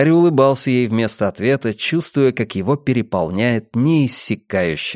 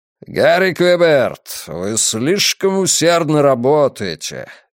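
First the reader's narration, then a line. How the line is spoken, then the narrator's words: Thunderous voice. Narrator (Russian): громовым голосом произнес Стерн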